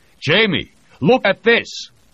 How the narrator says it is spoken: Voznesensky shout

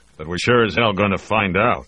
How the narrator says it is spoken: grumbled the chief

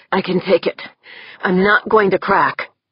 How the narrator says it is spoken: Corvus said tightly

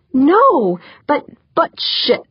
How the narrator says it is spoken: he snapped

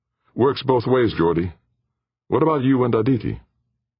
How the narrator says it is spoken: Jordan sighed

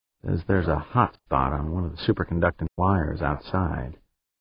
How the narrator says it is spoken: Without turning her head from the display screens, Pancho muttered

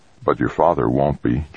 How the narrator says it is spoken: Jamie muttered

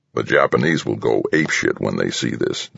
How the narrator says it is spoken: Defense rumbled, almost as if he was enjoying the thought

